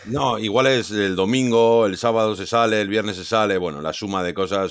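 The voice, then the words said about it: Low, worn-out, subdued voice. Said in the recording (Spanish): “Te veo un poquito apagado ... al final la voz, ya no tenemos, tenemos cierta edad que la voz ya tarda más en recuperar ... si tenías voz de locutor, con esto que me estás contando la parranda, ha tenido que ascender”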